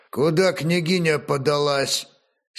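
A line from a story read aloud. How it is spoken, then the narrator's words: Angry inquiry. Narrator (Russian): сердито осведомился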